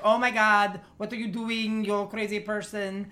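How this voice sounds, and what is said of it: Poorly imitated accent of another person. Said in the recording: “I can't do her accent ... both accents are horrible”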